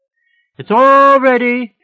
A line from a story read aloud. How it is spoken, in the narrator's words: she yelled back